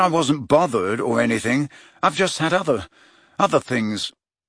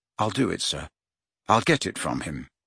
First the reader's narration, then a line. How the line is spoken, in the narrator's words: he said earnestly